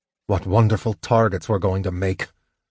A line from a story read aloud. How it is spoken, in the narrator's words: Sturm said irritably